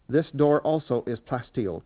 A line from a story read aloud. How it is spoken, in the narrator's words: Kynes said